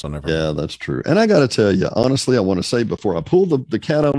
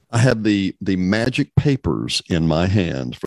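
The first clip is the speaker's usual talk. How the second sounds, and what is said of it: Imitates a radio talk host's voice. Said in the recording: “Rush Limbaugh ... impersonation.”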